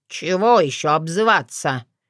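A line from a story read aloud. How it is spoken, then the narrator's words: Grumbling hedgehog. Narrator (Russian): проворчал еж на вполне себе правильном русском языке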